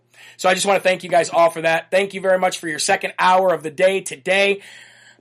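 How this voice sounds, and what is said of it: Strained, worn-out voice. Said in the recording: “My voice is killing me right now. I've done a lot of conference calls today”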